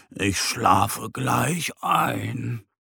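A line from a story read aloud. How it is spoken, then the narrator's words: Murmured. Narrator (German): murmelt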